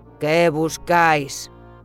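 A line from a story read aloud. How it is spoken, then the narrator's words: Guard's growl. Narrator (Spanish): gruñó otro guardia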